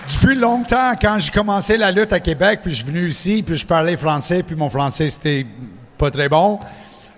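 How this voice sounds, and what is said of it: English-speaker accent in French. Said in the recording (French): “Je suis anglophone, comme tu peux euh, ah entendre mon accent.”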